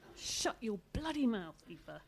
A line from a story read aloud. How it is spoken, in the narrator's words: he hissed